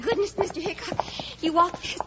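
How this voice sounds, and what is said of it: Breathless, out of breath speech. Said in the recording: “I'm all out of breath.”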